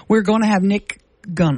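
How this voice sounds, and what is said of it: Sudden unusual accent. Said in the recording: “Listen to me. Where, when did I get this accent? ... I don't talk like that.”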